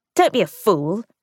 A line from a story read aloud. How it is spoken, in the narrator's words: Ruth spat